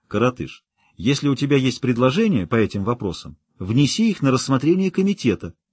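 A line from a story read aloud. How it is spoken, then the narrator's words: Forced calm. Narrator (Russian): Каупер сделал над собой усилие и уже спокойным тоном сказал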